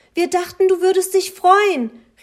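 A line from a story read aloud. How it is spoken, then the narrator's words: Grandmother calling after. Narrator (German): rief seine Großmutter ihm nach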